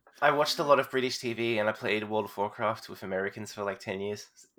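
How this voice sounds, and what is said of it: Mild, muted Australian accent. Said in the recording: “I don't sound very Australian, apparently. Like, people keep asking me if I'm from, like, Canada or sometimes, like, Ireland or Scotland ... a little bit less Australian than, like, the Crocodile Hunter”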